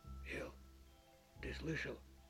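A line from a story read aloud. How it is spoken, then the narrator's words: Quiet question. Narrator (Russian): тихо спросил мастер-док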